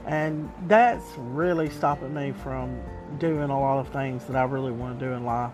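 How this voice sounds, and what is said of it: Southern US accent. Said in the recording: “my accent because I'm very Southern”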